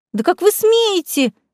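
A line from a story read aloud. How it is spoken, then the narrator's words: Shrieking woman. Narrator (Russian): взвизгнула брюнетка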